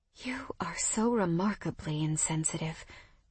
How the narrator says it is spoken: I breathed

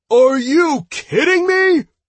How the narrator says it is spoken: Aten shouted indignantly

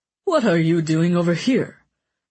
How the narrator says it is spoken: the fat man asked in a chuffed voice

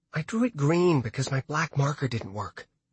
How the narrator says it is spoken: she whispered up to him

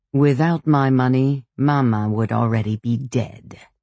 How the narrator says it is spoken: saying to me, at the end, with a sneer

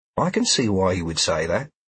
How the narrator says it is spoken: Sheila said in a supportive voice

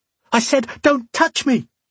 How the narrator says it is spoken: she screamed

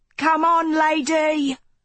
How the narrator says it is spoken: Elston shouted again

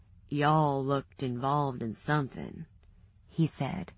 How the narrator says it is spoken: the gruff drawl in his voice

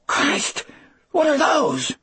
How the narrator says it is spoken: Dean asked in a shrill, scared voice

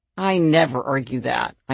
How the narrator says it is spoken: I answered in a weary tone

